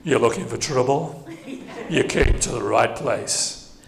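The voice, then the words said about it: Imitates another person's voice. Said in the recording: “Do a little Elvis impression”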